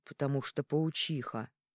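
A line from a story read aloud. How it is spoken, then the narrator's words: Grumbling mutter. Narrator (Russian): буркнул Арман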